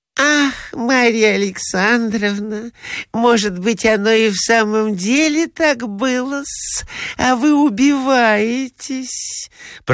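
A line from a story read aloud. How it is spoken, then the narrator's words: Honeyed voice. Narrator (Russian): проговорила она самым медоточивым голосом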